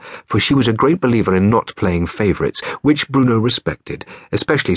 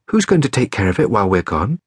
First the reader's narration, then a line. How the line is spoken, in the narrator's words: Mother sighed